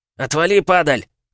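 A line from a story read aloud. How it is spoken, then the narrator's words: Shouted. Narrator (Russian): крикнул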